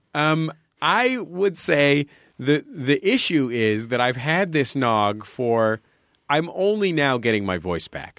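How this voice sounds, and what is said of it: Congested, thick, rich voice. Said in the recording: “You can probably still hear that my voice is a little rich and thick ... I'm still kept up at night by a chest congestion”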